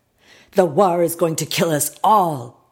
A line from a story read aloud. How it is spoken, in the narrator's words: yelled